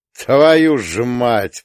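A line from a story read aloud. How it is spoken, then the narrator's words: Growl. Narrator (Russian): прорычал Гирин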